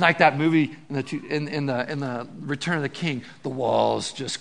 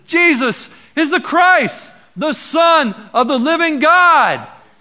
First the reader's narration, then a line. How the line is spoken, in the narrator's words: And then there's this great shout that comes out and says, and everyone says